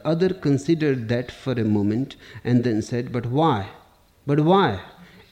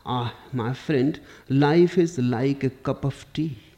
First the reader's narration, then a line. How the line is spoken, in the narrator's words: said with a sigh